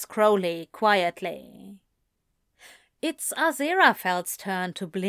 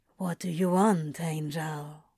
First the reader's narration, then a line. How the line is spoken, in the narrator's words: He asks in a low voice